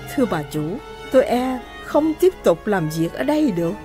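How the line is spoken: Soft, quiet. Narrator (Vietnamese): John nói khẽ

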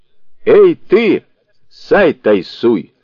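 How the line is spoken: Menacing shout. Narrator (Russian): грозно крикнул Суникун

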